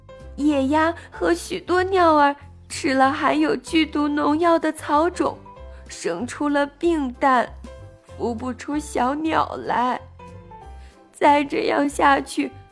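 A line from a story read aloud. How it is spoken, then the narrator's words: Crying. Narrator (Chinese): 辣嘴哭着说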